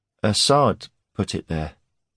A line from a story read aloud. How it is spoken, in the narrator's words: he said weakly